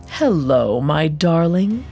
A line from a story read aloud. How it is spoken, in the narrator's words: Asmodeus purred from the shadows